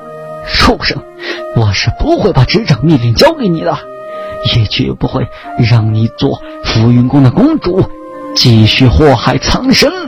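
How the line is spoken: Through gritted teeth. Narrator (Chinese): 庄尚剑咬牙

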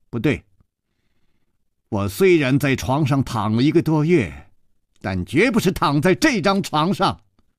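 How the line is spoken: Firm loud voice. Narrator (Chinese): 少女大声地说

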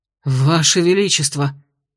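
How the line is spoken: Breathless exclamation. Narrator (Russian): выдохнул один из стражей

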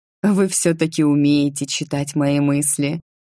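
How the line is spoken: Laughing. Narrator (Russian): рассмеялась я

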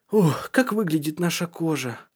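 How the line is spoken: Sigh. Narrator (Russian): вздохнул он

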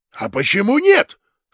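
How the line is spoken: Exclaiming. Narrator (Russian): воскликнул начальник сыскной

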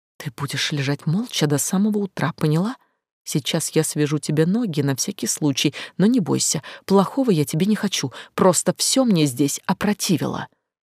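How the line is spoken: Cut off, muffled. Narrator (Russian): Договорить … не успела … глуша слова

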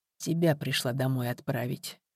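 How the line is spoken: Quiet reply. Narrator (Russian): тихо ответила тетя Шура

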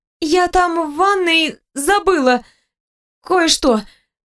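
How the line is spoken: Frightened hoarse wheeze. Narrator (Russian): просипела испуганно

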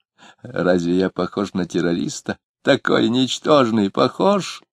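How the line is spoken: Nasty giggling question. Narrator (Russian): спросил он, хихикнув скверненько

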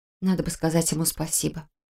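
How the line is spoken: Muttered. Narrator (Russian): пробормотала я

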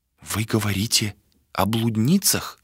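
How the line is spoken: Whisper. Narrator (Russian): прошептала она

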